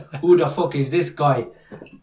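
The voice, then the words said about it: Bad put-on Irish accent. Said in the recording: “my Irish accent, by the way, is, is, horrendous”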